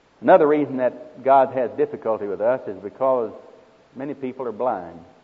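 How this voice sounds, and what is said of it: Speaks with a noticeable accent. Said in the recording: “Am I talking too fast for you? ... Maybe my accent's bothering you.”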